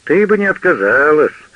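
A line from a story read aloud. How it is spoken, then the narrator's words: Approving crowd laughter. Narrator (Russian): одобрительно смеялись вокруг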